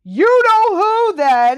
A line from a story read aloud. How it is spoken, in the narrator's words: Harry shouted, goaded past endurance